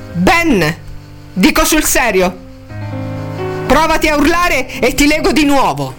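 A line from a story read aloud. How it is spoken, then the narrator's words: Shouting. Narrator (Italian): gli gridò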